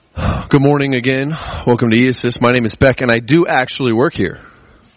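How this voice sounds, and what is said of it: Raspy voice, slightly hoarse. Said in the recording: “I got a little bit of a cold I'm fighting here, so my throat's a little raspy.”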